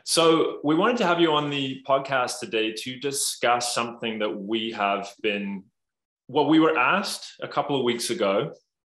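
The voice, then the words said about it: Northern Irish accent. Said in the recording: “you guys have such tremendous accents ... is a little bit better than mine ... it's a much nicer Northern Irish accent”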